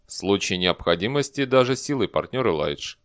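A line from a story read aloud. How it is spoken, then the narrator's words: Calm reply. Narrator (Russian): спокойно ответил Дэниел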